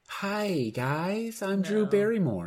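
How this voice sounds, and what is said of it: Imitates another person's voice, high-pitched. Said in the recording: “Can you do a Drew Barrymore? ... That's so Dylan's Katie voice. ... Was that too high?”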